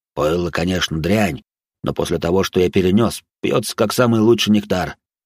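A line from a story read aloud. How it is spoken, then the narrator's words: Deep voice, pleased chuckle. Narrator (Russian): пробасил довольно усмехнулся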